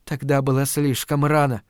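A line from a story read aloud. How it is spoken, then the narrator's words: Whispered. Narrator (Russian): прошептала она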